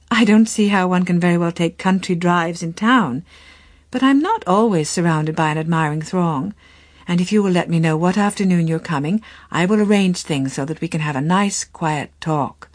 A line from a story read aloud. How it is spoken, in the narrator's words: she answered with a laugh